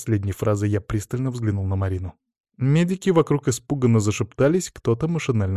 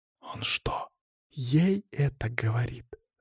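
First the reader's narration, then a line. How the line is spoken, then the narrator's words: Barely audible whisper. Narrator (Russian): раздался еле уловимый шепот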